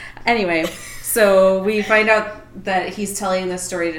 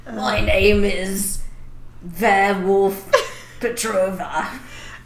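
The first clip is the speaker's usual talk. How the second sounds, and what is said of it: Bad mixed British-Russian put-on accent. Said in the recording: “I was just British and Russian at the same time. ... worst accent.”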